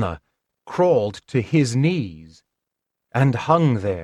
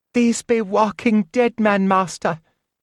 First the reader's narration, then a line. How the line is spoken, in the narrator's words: whimpered